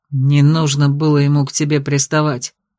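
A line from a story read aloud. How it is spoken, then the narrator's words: Growling. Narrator (Russian): рычал княжич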